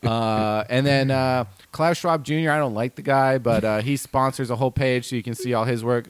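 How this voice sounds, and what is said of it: New Jersey accent. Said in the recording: “standard issue Jersey trash accent”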